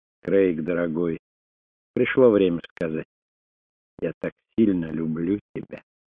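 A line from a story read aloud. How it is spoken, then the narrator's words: Whispered. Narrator (Russian): Она прошептала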